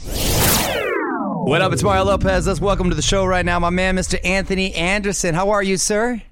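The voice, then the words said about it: Energetic radio host voice. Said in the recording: “You have a different radio voice than you do with your extra voice.”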